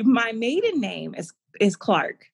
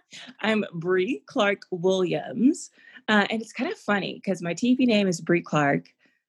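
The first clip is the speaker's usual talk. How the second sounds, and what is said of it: TV news anchor voice. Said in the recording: “Use my little news voice.”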